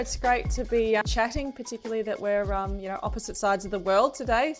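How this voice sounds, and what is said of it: Australian accent. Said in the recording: “I like a good Aussie accent.”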